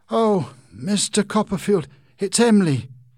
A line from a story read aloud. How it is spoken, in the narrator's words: he cried